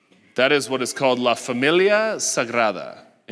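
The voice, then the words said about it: Put-on Spanish-style accent. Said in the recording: “Anybody like my accent there? That wasn't bad, right?”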